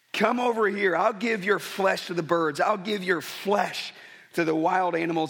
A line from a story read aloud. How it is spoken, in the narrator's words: Goliath yells